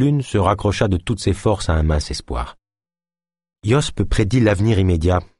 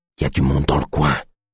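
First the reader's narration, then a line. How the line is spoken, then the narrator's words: Guard whispering. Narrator (French): chuchota le gardien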